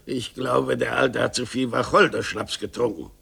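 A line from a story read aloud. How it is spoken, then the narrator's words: Murmur. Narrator (German): murmelte er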